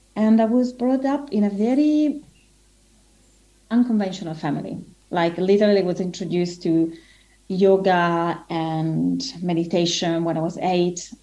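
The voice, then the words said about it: Italian accent. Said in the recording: “I'm Italian, as you can probably tell from the accent”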